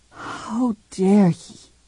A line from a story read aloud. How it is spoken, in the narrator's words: she whispered to herself